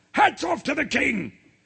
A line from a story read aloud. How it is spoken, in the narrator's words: shouted the captain of the guards